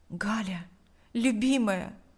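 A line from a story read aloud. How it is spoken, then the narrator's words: Whispered. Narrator (Russian): прошептал Павел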